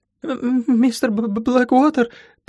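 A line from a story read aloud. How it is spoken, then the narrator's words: Timid babbling. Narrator (Russian): пролепетала Кейти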